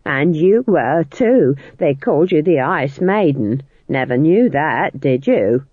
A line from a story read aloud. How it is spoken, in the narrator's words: sneered Nanny